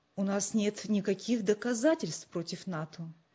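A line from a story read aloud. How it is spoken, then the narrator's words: Calm objection. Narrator (Russian): спокойно возразил отец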